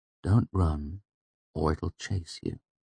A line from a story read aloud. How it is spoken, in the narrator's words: I said softly